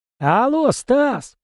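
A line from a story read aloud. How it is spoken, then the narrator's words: Nearly shouting. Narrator (Russian): почти кричал Альберт мне в ухо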